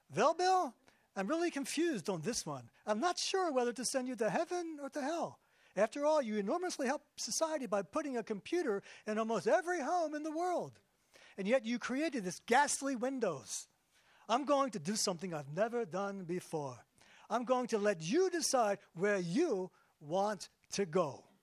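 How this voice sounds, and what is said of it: God with slight Jewish accent. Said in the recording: “God has a little bit of a Jewish accent”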